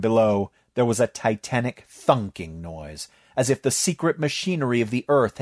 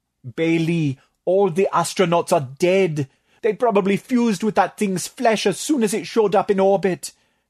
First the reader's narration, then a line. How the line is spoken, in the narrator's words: moaned, clenching his webbed fists